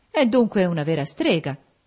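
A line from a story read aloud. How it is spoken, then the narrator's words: Exclaimed. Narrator (Italian): esclamò Federico Lynn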